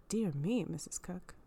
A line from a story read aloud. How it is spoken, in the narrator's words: sighed Catskin